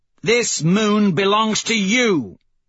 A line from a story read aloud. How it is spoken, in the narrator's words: Severo says, roaring to the roiling cage city